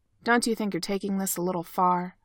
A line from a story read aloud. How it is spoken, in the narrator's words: Ovechkin asks Sid in Russian, his tone surprisingly short